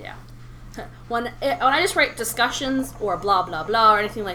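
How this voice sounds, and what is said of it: Usual voice. Nothing is said of it.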